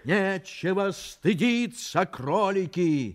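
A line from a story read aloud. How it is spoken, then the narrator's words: King's exclamation. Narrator (Russian): воскликнул король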